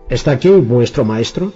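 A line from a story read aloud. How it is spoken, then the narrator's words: Loud question. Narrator (Spanish): preguntó con voz fuerte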